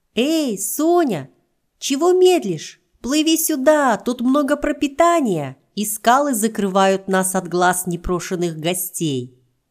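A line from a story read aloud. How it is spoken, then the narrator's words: Calling out. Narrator (Russian): крикнул папа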